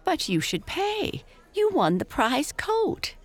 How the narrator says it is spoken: giggled Amy

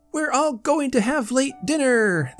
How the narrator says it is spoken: they cried in a chorus of small, silvery voices

